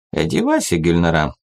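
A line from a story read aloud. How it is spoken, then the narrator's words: Dry repetition in Interlingua. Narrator (Russian): сухо повторил на интерлингве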